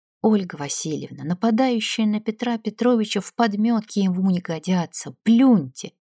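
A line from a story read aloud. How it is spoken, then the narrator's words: Quiet. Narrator (Russian): знакомый художник, негромко сказал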